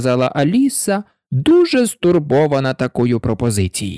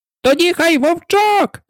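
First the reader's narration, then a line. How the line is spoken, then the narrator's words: Two voices shouting. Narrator (Ukrainian): закричали обоє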